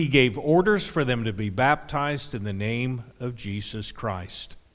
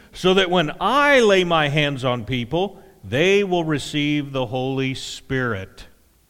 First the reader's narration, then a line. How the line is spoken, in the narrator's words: he exclaimed